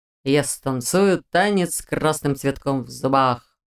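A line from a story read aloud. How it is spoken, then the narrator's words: Drawled. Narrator (Russian): протянул Диалтон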